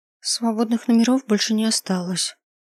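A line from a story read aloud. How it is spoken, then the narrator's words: Embarrassed girl mumbling. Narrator (Russian): сконфуженно сжавшись, пробормотала девушка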